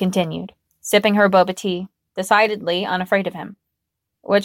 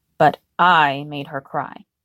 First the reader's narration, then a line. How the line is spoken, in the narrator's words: muttered bitterly